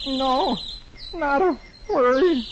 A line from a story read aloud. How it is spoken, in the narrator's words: Dagwood moans